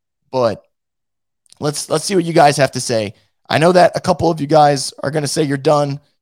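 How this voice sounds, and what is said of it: Hoarse, worn-out voice. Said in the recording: “as you guys can tell from my voice that I'm legitimately shot right now”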